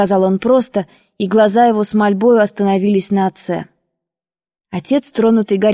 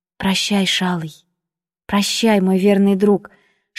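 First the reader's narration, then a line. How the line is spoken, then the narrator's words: Whispered. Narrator (Russian): шептала я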